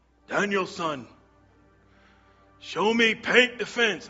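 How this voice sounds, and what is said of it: Put-on accent of film character. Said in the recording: “You like that accent? ... Sorry, I have to do the accent.”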